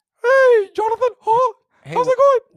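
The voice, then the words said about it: Mickey Mouse voice impression. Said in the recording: “do a whole Mickey Mouse imitation ... you'll have a conversation with Mickey Mouse”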